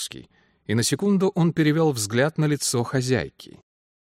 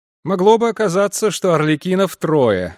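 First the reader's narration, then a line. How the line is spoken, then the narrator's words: Laughing. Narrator (Russian): рассмеялся Денман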